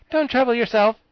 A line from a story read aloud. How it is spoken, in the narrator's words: said Ginger cheerfully